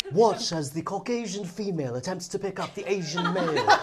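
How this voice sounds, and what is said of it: British documentary narrator accent. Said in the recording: “narrate it with a British accent? As to the encounter? ... Like an intro documentary?”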